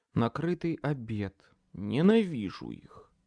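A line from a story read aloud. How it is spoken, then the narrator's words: Plain. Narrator (Russian): сказал я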